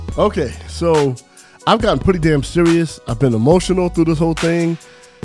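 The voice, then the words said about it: Sick, sinus-affected voice. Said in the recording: “I'm sorry the way my voice sounds. I got a sinus infection and I've been really sick”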